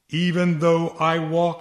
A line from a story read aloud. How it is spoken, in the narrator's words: he says